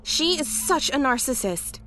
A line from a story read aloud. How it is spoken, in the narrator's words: she cried